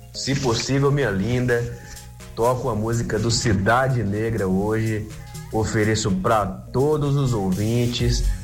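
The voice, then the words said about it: Distinctive Bahian Brazilian accent. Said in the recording (Portuguese): “ele tem um sotaque baiano diferente”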